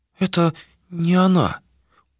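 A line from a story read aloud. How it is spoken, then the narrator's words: Dejected whisper. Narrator (Russian): уныло прошептала Сирма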